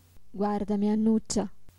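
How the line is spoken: Plain. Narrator (Italian): le disse

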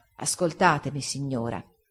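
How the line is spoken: Quiet and calm. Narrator (Italian): rispose, piano e calmo

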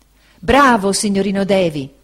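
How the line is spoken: Ecstatic exclamation. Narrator (Italian): esclamò Cam, estasiato

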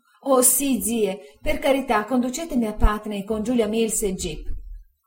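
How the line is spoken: Exclaimed while crying. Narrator (Italian): Dora, piangendo, esclamò

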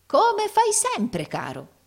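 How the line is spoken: Unrestrained exclamation. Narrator (Italian): esclamò il fratello Carlo, dimenticando interamente la sua dignità simulata

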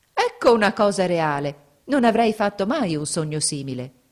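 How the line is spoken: Exclaimed. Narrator (Italian): esclamò

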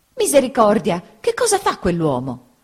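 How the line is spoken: Exclaimed. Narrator (Italian): esclamò

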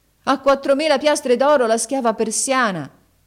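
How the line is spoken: Loud shout. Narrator (Italian): Haji Hassan gridò ad alta voce

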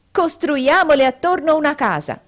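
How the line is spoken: Group shouting. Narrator (Italian): essi gridarono

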